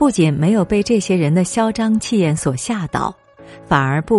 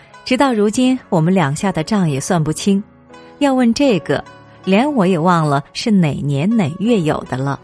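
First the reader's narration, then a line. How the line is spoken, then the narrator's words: Calm, laughing. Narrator (Chinese): 紫娟却不慌不忙的笑着说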